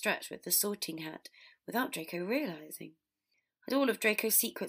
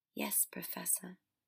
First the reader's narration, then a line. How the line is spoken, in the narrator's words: Draco said quietly